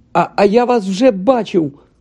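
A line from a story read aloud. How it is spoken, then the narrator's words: Exclamation. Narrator (Ukrainian): вигукнув Гаррі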